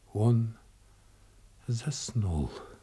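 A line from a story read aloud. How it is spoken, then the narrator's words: Barely audible reply. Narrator (Russian): отвечала она чуть слышно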